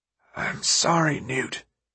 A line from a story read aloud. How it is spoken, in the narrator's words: he whispered